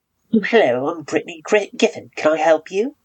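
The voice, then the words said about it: Put-on British accent. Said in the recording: “I practiced my, like, British accent. I think it's, like, okay now.”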